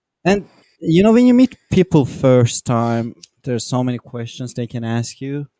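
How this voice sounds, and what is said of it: Speaks with a foreign accent. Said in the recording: “I have an accent. I cannot pronounce some words properly.”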